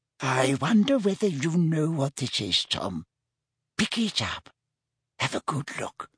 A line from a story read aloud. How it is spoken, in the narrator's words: whispered Hepzibah